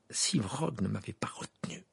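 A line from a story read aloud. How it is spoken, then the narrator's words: Bitter. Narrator (French): dit Harry d'un ton amer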